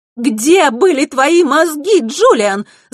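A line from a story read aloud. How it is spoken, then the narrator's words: Shout. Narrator (Russian): закричала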